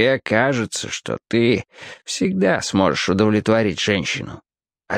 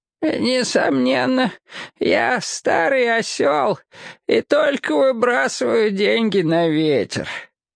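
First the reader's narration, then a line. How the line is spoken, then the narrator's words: Hoarse old voice. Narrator (Russian): произнес он хрипловатым старческим голосом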